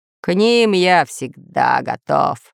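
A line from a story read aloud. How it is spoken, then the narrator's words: Deep bass voice. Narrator (Russian): пробасил Буль-Буль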